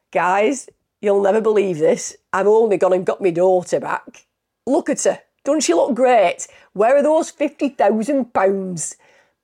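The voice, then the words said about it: Attempted Dewsbury accent impression of Karen Matthews. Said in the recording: “I know that's not actually a Dewsbury accent, but Dewsbury accent's more like that, isn't it? ... I did my best”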